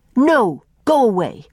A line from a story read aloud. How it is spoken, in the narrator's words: snapped Faith